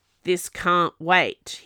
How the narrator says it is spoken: growled

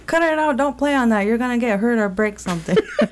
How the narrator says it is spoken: them yelling

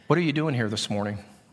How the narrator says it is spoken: I just simply said in a nice, gentle, quiet voice

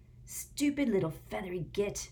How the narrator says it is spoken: Ron hissed

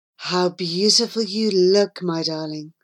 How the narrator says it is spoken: sighed the brambly bush

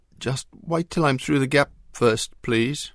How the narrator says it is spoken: pleaded Arthur, still needing the reassurance of his friends

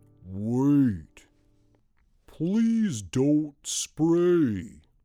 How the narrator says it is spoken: said the elephant with his big booming voice

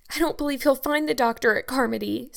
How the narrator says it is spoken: sobbed Diana

